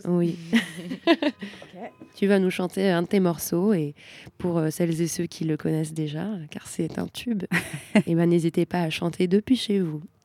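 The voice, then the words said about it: Smooth, suave radio-host voice. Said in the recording (French): “On se croirait sur TSF Jazz avec ta voix suave, là.”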